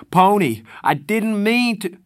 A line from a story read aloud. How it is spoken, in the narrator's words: Darry screamed